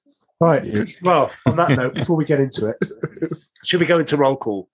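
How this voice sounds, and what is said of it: Usual voice. Nothing is said of it.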